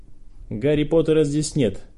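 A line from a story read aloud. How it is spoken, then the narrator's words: Sharp. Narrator (Russian): резко сказал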